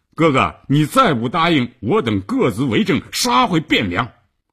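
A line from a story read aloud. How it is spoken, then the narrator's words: Angry and loud. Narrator (Chinese): 郑伦又火了，大声地说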